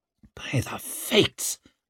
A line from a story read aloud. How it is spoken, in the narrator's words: croaked Hoff